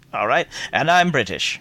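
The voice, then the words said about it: Mixed British-Australian put-on accent. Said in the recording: “that's sort of a British-Australian combination there”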